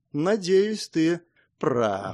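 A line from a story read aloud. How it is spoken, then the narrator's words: Thoughtful. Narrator (Russian): задумчиво сказала Эмма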